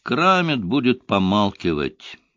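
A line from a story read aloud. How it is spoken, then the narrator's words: Gloomy report. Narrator (Russian): мрачно доложил он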